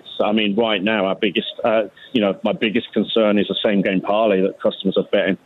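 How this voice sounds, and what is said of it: English accent from Birmingham. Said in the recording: “because of the accent, we got to ask, where are you from? ... Birmingham, England.”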